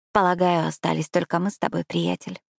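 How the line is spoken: Whisper. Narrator (Russian): прошептала я

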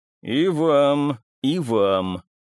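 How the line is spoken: Menacing prophetic retort. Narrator (Russian): Грозным тоном библейского пророка парировал он

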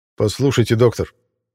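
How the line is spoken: Sharp clipped voice. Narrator (Russian): А вот этот голос уже звучал более резко и отрывисто

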